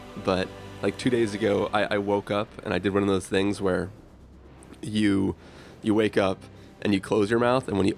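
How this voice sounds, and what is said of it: Congested voice from a cold. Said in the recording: “at the tail end of a wicked cold that I've had for the last week ... hear the cold in my voice”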